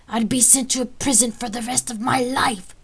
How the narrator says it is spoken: Cassandros yelled

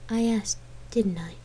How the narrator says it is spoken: She murmured

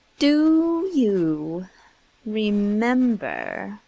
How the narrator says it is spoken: He spoke slowly and with an effort

